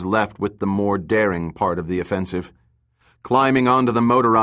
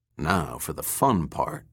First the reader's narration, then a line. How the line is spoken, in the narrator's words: muttered to himself